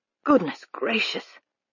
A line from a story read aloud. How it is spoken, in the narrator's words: Hackworth murmured